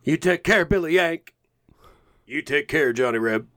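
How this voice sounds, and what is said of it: Imitates movie characters' voices. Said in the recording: “your impression of that scene”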